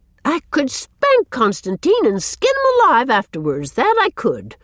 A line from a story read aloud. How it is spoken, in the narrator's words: she exclaimed bitterly